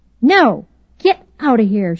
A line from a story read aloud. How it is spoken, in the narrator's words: snapped